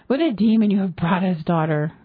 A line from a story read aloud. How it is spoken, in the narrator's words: gasped Morg's father